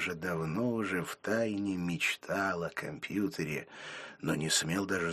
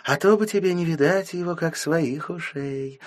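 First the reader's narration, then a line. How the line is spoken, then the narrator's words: Mother speaking joyfully. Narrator (Russian): радостно говорила мама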